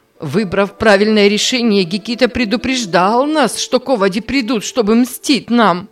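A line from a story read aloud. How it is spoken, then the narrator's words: Loud crying, distraught. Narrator (Russian): Она громко заплакала, как будто стояла перед новой трагедией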